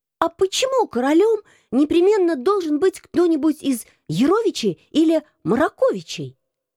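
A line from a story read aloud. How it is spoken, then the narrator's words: Exclaiming. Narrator (Russian): воскликнул он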